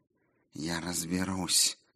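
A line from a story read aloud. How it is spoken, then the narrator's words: Muttering. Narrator (Russian): бормотала Сигерлин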